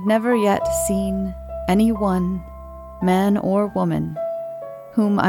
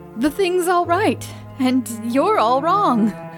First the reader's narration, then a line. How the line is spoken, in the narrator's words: I shouted up